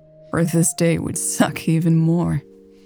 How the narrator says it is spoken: chuckled

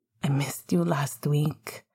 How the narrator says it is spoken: Sirius murmured

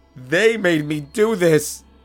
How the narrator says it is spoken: he screamed

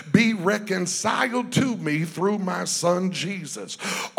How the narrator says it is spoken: God cries through us

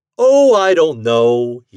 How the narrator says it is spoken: he chuckled

